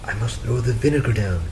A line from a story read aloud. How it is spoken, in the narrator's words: she whispered to Frederick